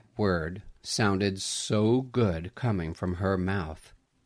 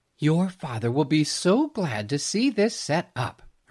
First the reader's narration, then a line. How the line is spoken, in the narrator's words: said cheerfully